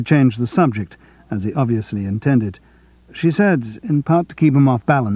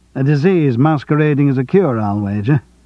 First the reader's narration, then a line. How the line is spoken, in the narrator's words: John chuckled